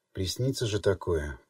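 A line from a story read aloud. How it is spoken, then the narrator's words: Muttering. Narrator (Russian): пробормотала она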